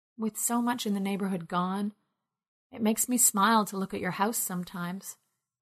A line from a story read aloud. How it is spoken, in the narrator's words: whispered the girl in turquoise